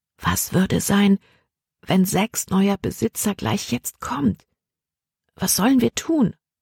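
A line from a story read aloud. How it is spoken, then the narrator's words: Quiet. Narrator (German): sagte sie leise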